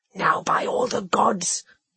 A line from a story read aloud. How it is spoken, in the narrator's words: he whispered